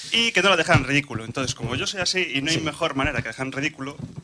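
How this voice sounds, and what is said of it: Galician Spanish accent. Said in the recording (Spanish): “se me notara mucho el acento a gallego... Tarde.”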